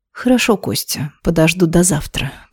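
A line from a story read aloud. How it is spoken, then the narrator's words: Purring. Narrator (Russian): промурлыкала она ему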